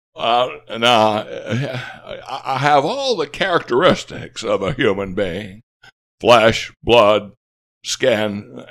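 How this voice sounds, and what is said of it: Imitates another person's voice. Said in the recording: “your Jimmy Stewart impression. ... it's seasoned, well seasoned”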